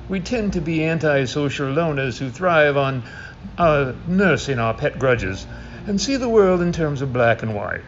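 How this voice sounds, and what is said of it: Attempted snobby British accent. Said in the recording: “with his best attempt at a snobby British accent”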